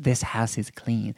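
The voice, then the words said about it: Imitates another person's voice. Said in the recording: “This will be my Zelda Rubinstein impression.”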